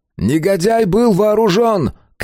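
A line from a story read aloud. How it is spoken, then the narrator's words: Shout. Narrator (Russian): крикнул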